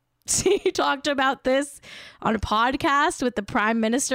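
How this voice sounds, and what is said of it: Usual voice. Nothing is said of it.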